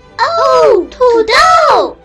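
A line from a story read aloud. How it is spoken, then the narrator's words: Group shouting. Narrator (Chinese): 大家一起喊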